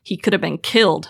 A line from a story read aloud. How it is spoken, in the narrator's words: Fleck grunts